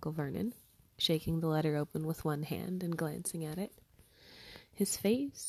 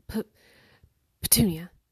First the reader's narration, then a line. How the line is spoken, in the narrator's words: he gasped